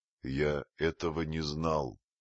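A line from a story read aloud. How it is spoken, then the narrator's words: Gloomy speech. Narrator (Russian): мрачно проговорил Маугли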